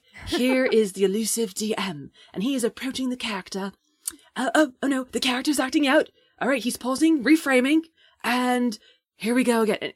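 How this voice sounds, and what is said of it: Nature documentary narrator accent. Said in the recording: “It felt like one of those nature videos ... I apologize for the accent. That was awful.”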